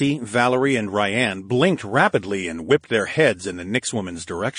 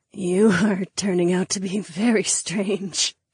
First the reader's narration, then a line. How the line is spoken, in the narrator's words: the imp woman cackled